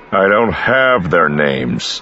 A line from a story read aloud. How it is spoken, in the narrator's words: Han growled